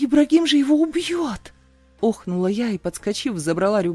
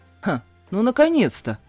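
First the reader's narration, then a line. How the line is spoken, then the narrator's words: Snort. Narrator (Russian): хмыкнул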